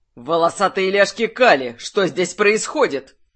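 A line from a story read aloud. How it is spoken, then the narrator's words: Barked. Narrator (Russian): Рявкнул Льер Талик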